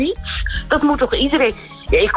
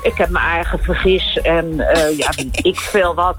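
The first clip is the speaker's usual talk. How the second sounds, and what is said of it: Broad Bodegraven Dutch dialect. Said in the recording (Dutch): “ik kom uit Bodegraven ... wat voor accent is daar dan? ... plat praten vooral”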